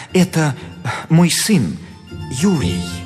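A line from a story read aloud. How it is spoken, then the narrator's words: Guilty voice. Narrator (Russian): Репин виноватым голосом отвечал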